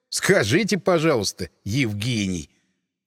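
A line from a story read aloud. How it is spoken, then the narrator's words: Snorting familiar tone. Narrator (Russian): Фыркнул я, перейдя, как и он, на фамильярный тон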